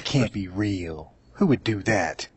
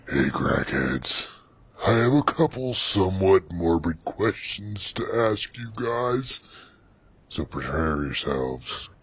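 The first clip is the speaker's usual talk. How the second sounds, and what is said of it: Reading in a put-on deep voice. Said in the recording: “read her question in a deep voice”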